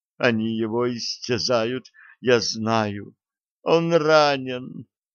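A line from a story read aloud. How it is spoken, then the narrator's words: Moaning woman. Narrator (Russian): стонала она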